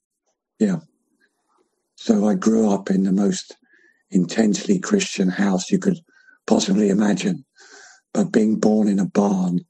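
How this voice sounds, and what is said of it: Croaky, hoarse voice. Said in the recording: “sorry about my croaky voice, which is probably related to my cancer”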